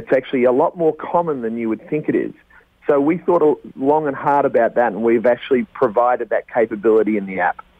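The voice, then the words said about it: Noticeable accent. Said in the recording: “I'd love to keep you on for the next 4 hours just with that accent alone.”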